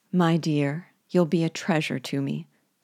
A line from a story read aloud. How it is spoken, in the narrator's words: said Nancy in her gentle voice